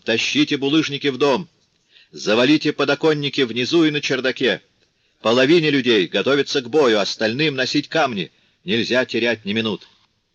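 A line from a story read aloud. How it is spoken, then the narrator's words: Thunderous shout. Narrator (Russian): крикнул громовым голосом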